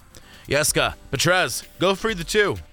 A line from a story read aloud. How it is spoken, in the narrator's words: the woman shouted